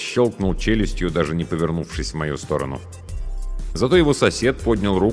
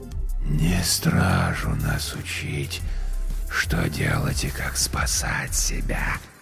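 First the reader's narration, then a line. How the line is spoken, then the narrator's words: King's rustling whisper in head. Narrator (Russian): прозвучал у меня в голове шелестящий шепот короля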